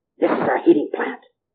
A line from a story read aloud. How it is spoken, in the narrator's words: their guide whispered